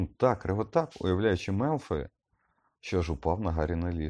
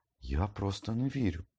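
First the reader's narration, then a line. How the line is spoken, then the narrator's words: Whispered. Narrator (Ukrainian): шепотів Гаррі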